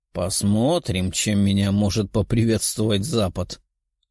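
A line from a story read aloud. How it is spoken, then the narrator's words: Mutter. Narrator (Russian): пробормотал демон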